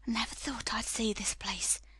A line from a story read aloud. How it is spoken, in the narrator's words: he said at last in a whisper